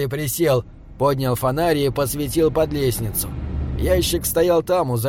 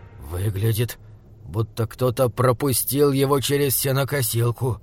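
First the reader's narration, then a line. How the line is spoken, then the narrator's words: Hoarse. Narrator (Russian): сказал он хрипло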